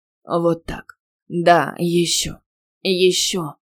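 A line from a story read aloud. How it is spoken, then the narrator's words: Hoarse wheezing. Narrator (Russian): хрипел он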